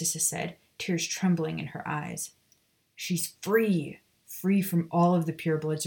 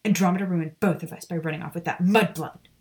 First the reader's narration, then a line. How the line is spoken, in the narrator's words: she spat